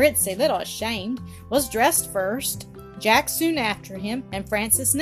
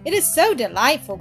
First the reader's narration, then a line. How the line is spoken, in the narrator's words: cried